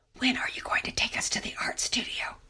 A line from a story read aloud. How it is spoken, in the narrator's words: Lydia's whispering